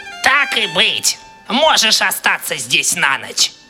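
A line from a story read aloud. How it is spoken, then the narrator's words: Displeased grumble. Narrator (Russian): пробурчала недовольно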